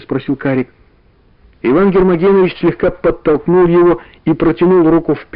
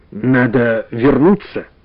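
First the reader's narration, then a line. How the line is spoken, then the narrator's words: Plain. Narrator (Russian): сказал Иван Гермогенович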